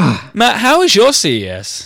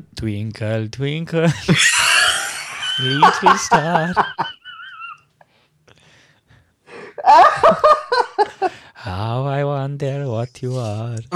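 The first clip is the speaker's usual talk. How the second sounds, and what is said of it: Sung in put-on Spanish accent. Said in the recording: “sing Twinkle Twinkle Little Star in a Spanish accent”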